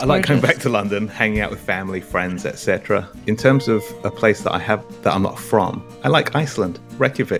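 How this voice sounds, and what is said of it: English accent. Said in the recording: “You might have noticed an accent ... This is an English accent”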